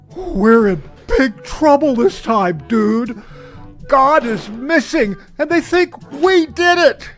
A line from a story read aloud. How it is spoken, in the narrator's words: The younger brother, gasping for breath, replied